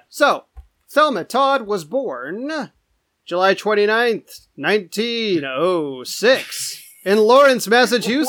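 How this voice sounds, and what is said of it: Game show announcer voice. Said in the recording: “suddenly turn on that voice ... That's the game show voice. That's how you announce when people are born.”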